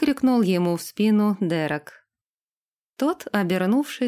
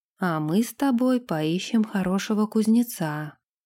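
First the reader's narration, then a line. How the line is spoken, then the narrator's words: Whisper. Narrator (Russian): прошептал Дерек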